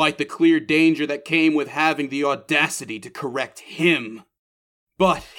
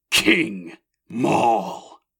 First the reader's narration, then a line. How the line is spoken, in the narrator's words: Maul bristled at it, snarling